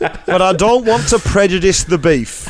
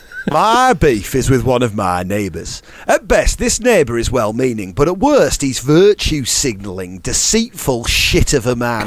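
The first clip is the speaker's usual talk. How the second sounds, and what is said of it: Put-on northern English accent. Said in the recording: “Should I do this in a northern accent? ... It does need to be in a northern accent.”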